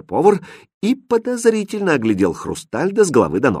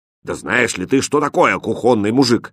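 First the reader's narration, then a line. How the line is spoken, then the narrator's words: Stern question. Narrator (Russian): строго спросил повар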